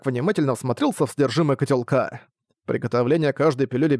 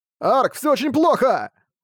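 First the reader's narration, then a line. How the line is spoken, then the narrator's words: Alarmed shout. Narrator (Russian): Встревоженно прокричал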